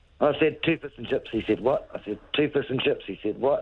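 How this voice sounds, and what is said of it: New Zealand accent. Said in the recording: “your Kiwi accent ... Your Kiwi accent has got you in trouble”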